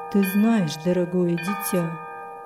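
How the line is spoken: Mumbled. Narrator (Russian): пробормотал он

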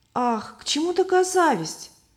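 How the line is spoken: Exclaimed. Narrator (Russian): воскликнула Любовь

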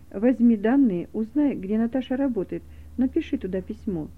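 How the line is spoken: Quiet. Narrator (Russian): Дух Святой тихо сказал

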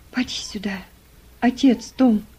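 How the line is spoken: Whispered. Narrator (Russian): прошептала она

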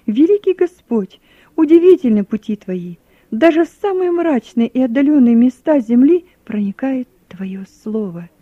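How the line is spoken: Near shout. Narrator (Russian): Я чуть было не крикнул

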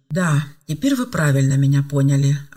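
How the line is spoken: Relieved sigh, young woman. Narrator (Russian): облегченно вздохнула девушка

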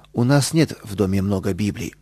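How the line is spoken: Calm reply. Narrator (Russian): спокойно ответила мама

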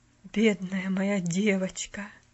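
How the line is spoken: Whisper. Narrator (Russian): прошептал мистер Пендлтон

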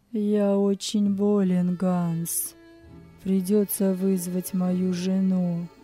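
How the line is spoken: Feigned voice. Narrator (Russian): сказал он притворным голосом

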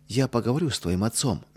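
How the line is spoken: Gentle. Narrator (Russian): мягко сказала Ядвига

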